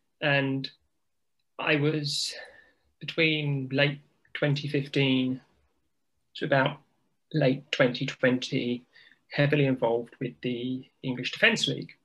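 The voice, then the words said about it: British English accent. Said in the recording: “this accent, I am as British as tea and scones”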